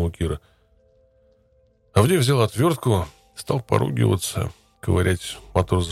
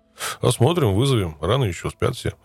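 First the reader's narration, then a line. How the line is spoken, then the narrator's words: Plain. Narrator (Russian): ответили ей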